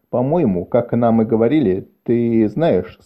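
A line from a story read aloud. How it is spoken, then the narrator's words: Plain. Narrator (Russian): сказал Шем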